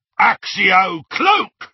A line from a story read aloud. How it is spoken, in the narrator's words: roared one of the Death Eaters